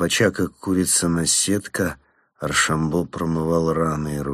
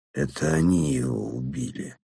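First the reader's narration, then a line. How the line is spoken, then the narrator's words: Strained thick voice. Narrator (Russian): выдавил он вязким голосом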